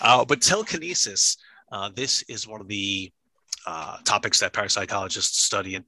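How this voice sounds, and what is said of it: Usual voice. Nothing is said of it.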